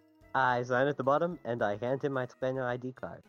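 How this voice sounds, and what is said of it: Put-on accent. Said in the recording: “I don't know why I said that with an accent.”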